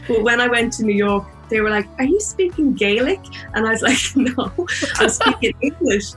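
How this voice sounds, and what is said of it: Irish accent. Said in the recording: “because of my accent, I pronounce my words a little bit better these days ... I thought all Irish people wore pedal pushers”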